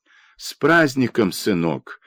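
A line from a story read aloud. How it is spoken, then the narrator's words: Old woman's timid trembling voice. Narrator (Russian): дрожащим голосом проговорила старуха, словно робко и боязливо спросила о чем-то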